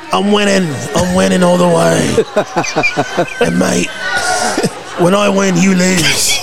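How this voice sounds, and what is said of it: Put-on Manchester English accent. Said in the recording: “that Billy Butcher accent ... I was trying to do Manchester”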